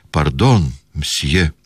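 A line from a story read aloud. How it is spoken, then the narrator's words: Flustered muttered apology. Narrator (Russian): хотел извиниться и только мог пробормотать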